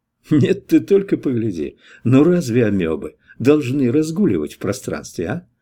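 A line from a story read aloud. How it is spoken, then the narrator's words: Soft, instructive tone. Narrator (Russian): первый поучительно и мягко произнес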